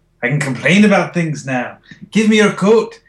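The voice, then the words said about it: Scottish Peter Capaldi impression. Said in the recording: “do a Capaldi impression ... Scottish ... That's pretty good.”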